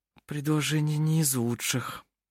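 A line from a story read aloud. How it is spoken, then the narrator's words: Muttered. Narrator (Russian): пробормотала она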